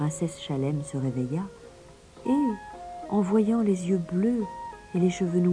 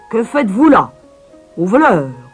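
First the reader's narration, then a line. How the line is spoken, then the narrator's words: Shouted. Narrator (French): cria-t-il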